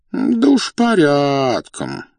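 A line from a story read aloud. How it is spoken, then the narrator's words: Drawling. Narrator (Russian): протянул князь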